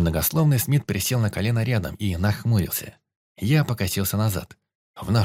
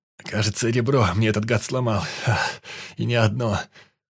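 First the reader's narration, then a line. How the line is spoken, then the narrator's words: Groaning in pain. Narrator (Russian): простонал Сенин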